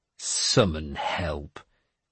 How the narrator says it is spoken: I said scornfully

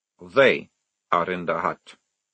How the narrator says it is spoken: said Maledict flatly

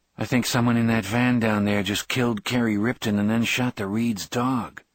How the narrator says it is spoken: Johnny Marinville said in a strange, flat voice

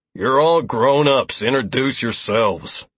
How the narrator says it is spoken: Lazarus grunted

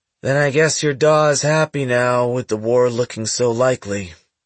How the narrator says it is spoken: Andon said, his voice a monotone

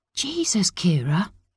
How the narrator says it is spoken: Alex hissed

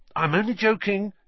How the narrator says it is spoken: Ron added hastily

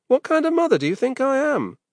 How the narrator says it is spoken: Nick giggled

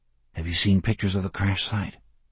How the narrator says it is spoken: He asked very quietly

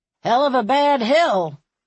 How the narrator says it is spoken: Springer said gruffly

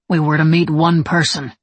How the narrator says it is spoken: Levi said, his tone hard

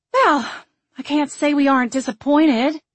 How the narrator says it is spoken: Marianne sighed

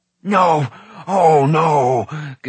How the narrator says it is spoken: Gurgi howled

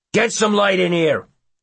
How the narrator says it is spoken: one of them barks

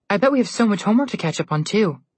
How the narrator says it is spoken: Alex said happily

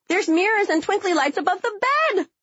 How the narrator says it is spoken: I screamed down from the third floor as I grinned

